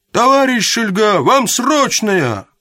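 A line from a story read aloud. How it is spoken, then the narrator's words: Shout from below. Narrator (Russian): голос агента крикнул снизу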